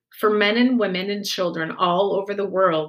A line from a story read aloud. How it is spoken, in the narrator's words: he said